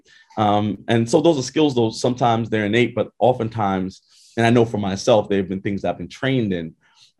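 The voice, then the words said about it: Brooklyn accent. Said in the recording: “we love your Brooklyn accent ... It doesn't have to be the Queen's English”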